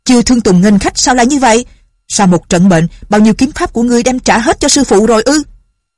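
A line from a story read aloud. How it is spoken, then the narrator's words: Old woman crying out. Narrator (Vietnamese): Bà la lên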